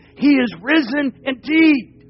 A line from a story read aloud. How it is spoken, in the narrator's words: the people that were hiding in the hills, they cried out